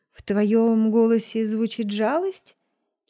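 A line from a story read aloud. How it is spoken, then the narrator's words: Laughing. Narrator (Russian): Кейн смеялся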